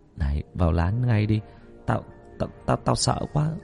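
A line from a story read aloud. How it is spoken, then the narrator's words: Soft, quiet. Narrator (Vietnamese): Thằng Cường nói khẽ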